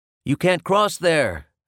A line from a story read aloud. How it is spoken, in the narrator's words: I yelled back at him